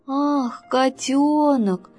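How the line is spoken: Relieved sigh. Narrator (Russian): облегченно вздохнул Зайка Петя

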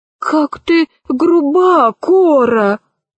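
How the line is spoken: Sighing, cockerel. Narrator (Russian): вздохнул петушок

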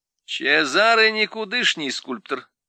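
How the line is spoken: Laughing. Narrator (Russian): засмеялась Леа

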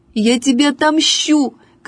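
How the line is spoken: Tearful shouting. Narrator (Russian): кричала со слезами Катя

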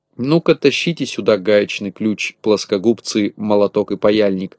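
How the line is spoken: Plain. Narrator (Russian): сказал Винтик

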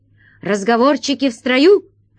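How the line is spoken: Barked. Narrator (Russian): рявкнул охран-паша

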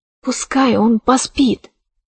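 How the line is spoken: Whisper. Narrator (Russian): прошептала она

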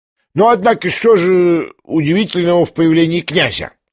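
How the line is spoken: Loudest shout. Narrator (Russian): закричал громче всех Фердыщенко

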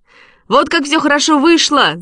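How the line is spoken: Shouting. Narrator (Russian): закричал он

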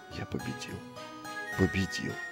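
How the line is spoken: Triumphant whisper. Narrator (Russian): прошептал он

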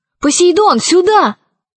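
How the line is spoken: Shouted. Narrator (Russian): крикнула она

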